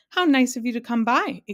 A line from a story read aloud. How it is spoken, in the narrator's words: exclaimed the man